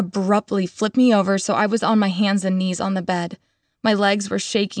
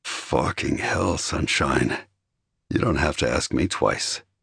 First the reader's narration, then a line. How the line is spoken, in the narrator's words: he growled